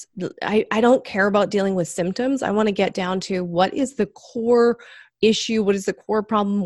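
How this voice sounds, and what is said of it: Slight Canadian accent. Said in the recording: “she does have a bit of Canadian accent ... There's a few words that give me away”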